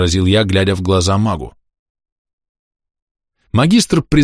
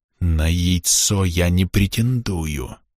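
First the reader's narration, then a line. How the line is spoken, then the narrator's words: Insincere hiss. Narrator (Russian): явно неискренне прошипел магистр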